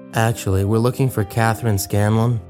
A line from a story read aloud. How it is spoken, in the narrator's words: he said